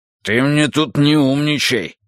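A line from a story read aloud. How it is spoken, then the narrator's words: Roared. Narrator (Russian): взревел он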